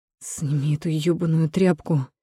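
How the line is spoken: Irritated through teeth. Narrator (Russian): цедит раздраженно

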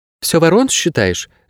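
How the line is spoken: Sharp female question. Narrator (Russian): резко спросила женщина

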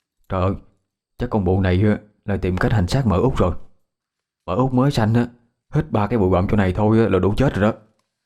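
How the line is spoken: Quiet aside. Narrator (Vietnamese): Một người nhỏ giọng với người bên cạnh

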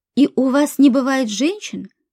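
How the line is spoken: Plain. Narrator (Russian): спросил Борис

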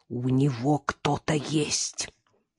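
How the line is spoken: Hiss. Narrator (Russian): прошипела Карина

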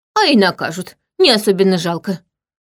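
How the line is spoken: Snorting. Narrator (Russian): фыркнула она

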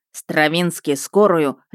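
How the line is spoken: Barked. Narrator (Russian): рявкнул он

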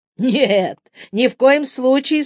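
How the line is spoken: Guffawing speech. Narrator (Russian): с хохотом сказал Юити

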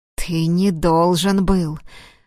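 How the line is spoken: Growling in someone's face. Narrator (Russian): рычал Платон в лицо провинившемуся

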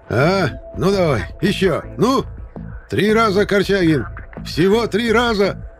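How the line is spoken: Yelling. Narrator (Russian): Орал Шипко на Матвея

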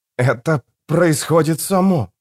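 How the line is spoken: Strangled whisper. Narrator (Russian): сдавленным шепотом проговорил Фарадн

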